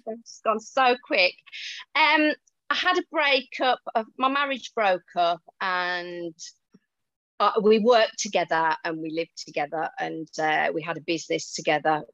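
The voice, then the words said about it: Brummy English accent. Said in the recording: “we can hear a Brummy accent ... I'm a Wolverhampton girl ... I haven't lost my accent”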